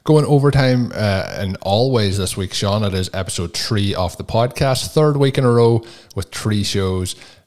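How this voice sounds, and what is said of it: Irish brogue. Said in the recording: “A lot of people do comment, especially in the US, on the way I say 3 ... my Irish brogue”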